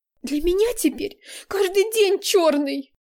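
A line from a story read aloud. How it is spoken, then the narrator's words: Exclaiming, then sobbing. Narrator (Russian): воскликнула Настя и разрыдалась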